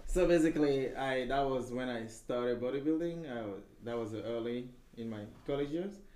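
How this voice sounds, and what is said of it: Strong thick accent. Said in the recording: “I have this strong accent, I can't help it. ... It's so thick.”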